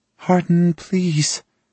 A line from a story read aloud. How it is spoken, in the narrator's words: Tessa whines behind me